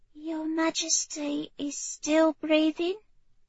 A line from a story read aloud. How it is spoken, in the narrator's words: Pet the girl said softly